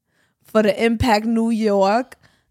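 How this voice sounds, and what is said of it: Exaggerated New York accent. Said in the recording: “Why is that New York like that? ... Because you be forcing your accent.”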